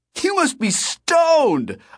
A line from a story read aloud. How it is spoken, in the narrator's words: I shouted